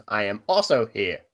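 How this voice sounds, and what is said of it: Robot voice. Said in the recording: “Can I do a robot voice?”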